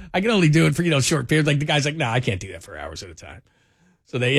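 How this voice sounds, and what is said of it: Usual voice. Nothing is said of it.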